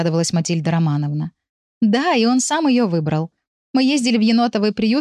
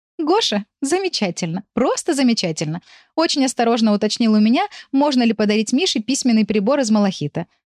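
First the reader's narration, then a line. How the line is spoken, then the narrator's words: Laughing. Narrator (Russian): рассмеялась Тамара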